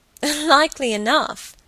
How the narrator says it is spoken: Helen laughed

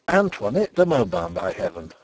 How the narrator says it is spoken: I cried

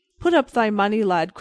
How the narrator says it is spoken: cried the other quickly

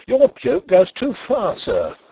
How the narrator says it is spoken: I cried

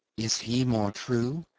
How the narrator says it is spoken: she murmured

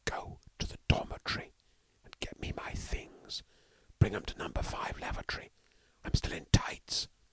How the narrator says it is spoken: hissed Stalky

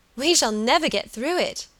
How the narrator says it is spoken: she cried

